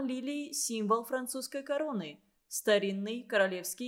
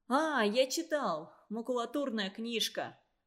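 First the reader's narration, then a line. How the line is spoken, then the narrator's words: Exclamation. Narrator (Russian): воскликнул Игорек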